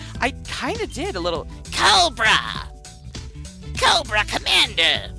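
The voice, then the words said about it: Cobra Commander character voice. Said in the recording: “did an awesome Cobra Commander impersonation”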